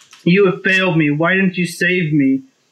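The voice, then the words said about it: Imitates a character's voice. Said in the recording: “In that telltale Raven voice.”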